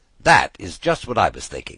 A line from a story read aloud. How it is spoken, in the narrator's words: said the lynx